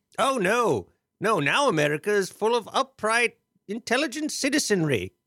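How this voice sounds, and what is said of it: British accent, sarcastic tone. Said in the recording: “The British accent tends to mask the sarcasm”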